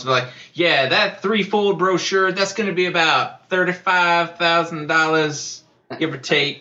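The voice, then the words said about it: Put-on St. Louis accent. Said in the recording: “I'm not sure why I roll into that, like, accent from Vacation from St. Louis. I'm not sure why I'm rolling into that accent”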